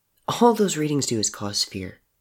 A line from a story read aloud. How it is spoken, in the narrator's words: Murdoch said quietly